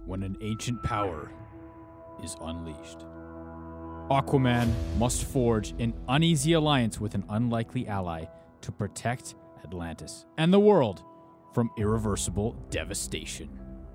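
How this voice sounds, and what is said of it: Deep movie-trailer narrator voice. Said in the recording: “In a movie voice ... Really deep, please.”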